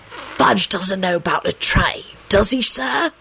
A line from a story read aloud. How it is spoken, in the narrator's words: he hissed